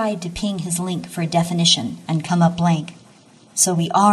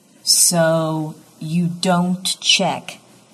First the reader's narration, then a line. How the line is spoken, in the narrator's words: Dix says slowly